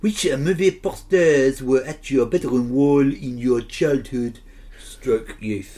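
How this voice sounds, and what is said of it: Put-on French accent. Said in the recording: “ask me number two in a French accent”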